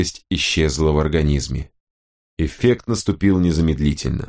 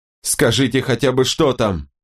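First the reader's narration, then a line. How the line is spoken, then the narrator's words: Distant pleading shouts. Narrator (Russian): Кэти кричала и молила из другой комнаты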